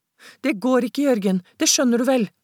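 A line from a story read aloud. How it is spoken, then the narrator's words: Despairing. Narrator (Norwegian): sa Martine fortvilet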